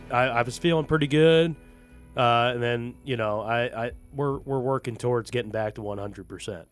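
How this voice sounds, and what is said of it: Slightly hoarse, worn voice. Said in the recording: “we both still have a voice from this last weekend. You sound a little, not quite raspy ... I lost my voice a little bit”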